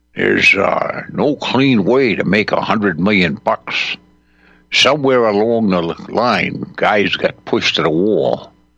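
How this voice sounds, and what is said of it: Humphrey Bogart impression. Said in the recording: “I'll do my best to do a Bogart voice.”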